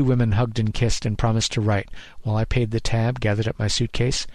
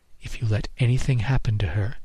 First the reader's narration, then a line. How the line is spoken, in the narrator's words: she whispered in my ear